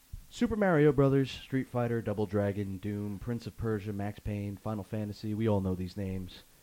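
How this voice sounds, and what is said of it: Congested, nasal voice. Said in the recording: “My allergies are bad, so my voice is suffering pretty. I'm probably sound nasally as shit right now.”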